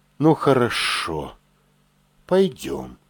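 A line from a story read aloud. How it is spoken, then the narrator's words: Sighing. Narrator (Russian): вздохнула она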